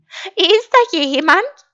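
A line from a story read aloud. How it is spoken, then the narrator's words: Called from the door. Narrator (German): rief Schaf von der Tür aus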